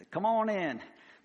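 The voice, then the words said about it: Put-on hillbilly accent. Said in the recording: “I try to give you a little hillbilly accent there with it.”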